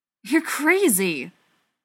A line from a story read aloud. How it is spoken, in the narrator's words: Spencer exclaimed